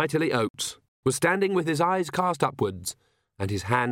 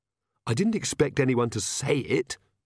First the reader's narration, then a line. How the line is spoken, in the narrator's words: Magrat hissed